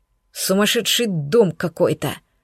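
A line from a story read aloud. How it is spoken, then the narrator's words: Muttered. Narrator (Russian): буркнул Андреас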